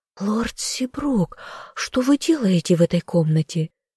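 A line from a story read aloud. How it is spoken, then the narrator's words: Astonished whisper. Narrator (Russian): прошептала в изумлении Дарси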